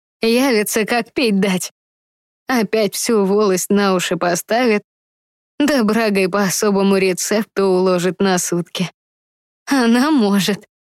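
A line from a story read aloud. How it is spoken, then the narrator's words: Laughing. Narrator (Russian): рассмеялась Марьяна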